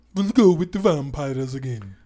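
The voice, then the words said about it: Put-on Transylvanian accent. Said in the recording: “That was a great accent. All the people in Transylvania are offended.”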